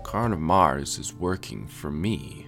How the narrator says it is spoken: said gravely

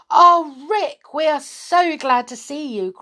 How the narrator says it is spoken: cried everyone

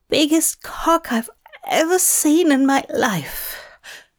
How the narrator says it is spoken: Aziraphale croaked

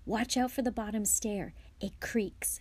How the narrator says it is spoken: Harry whispered back

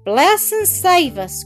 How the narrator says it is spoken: cried Mrs

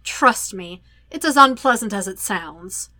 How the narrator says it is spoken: Sokka grumbles

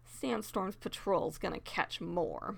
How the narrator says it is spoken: muttered Cherry

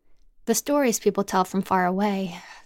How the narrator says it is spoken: Zam sighed

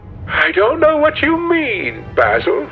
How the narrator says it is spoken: he exclaimed

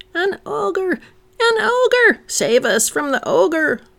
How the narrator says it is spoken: Kinnan faltered

